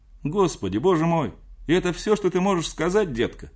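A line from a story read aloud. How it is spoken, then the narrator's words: Exclaimed. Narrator (Russian): воскликнул Готфрид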